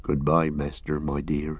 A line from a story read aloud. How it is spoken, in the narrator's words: he murmured